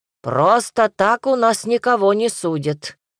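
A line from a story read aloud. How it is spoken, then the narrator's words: Stern merchant. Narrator (Russian): строго сказал купец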